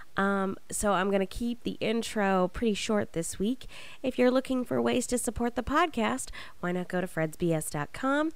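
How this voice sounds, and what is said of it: Sick, under-the-weather voice. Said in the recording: “as you can probably hear, a little bit under the weather, so my voice isn't necessarily 100% in this episode”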